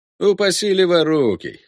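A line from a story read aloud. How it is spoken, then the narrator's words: Smirking grunt. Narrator (Russian): хмыкнул Фрошер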